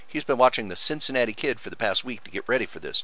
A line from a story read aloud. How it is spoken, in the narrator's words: Jason said